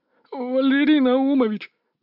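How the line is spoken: Timid babble. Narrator (Russian): пролепетал шестерка

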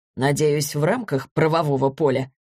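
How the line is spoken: Wry snort. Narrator (Russian): хмыкнул Борис

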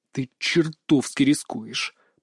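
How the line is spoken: Through gritted teeth, restrained. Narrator (Russian): процедил, стараясь сдерживать эмоции

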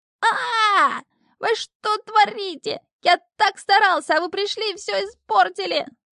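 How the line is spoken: Frantic shriek. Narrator (Russian): завизжал ошалевший Шнырь

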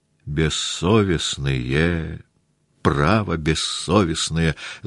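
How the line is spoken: Voice from behind. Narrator (Russian): заговорил сзади голос Мавры Кузьминишны

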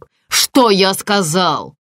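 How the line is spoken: Yelling. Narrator (Russian): заорал

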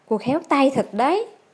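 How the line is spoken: Smiling. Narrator (Vietnamese): mỉm cười nói

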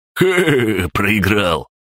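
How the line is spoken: Gleeful laughter. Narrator (Russian): залился ликующим хохотом

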